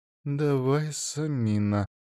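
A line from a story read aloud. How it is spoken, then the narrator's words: Self-encouraging mutter. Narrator (Russian): бормотала Фурия себе под нос, подбадривая себя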